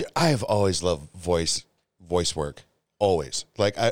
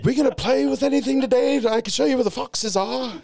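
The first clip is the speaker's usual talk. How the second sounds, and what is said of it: Convincing put-on posh British accent. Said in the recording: “they look like they're an uppity British person ... You're better at that accent than I thought, man. That's really good.”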